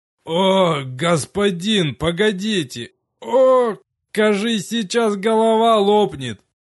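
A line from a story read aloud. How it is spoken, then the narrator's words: Agonized groan. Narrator (Russian): Мученически простонал Рикар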